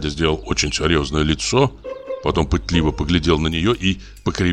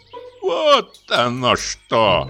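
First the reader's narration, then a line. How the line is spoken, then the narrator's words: Sung in old woman's voice. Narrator (Russian): пропел он старушечьим голосом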